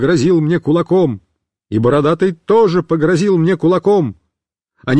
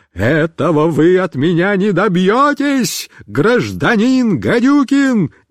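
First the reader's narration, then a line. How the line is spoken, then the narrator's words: Terrible shouting voice. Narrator (Russian): закричал страшным голосом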